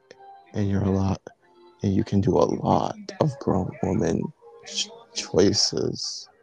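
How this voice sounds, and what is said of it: Husky whispering voice. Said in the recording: “in his husky voice, kind of just whispering”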